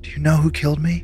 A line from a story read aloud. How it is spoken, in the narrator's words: asking in a voice barely above a whisper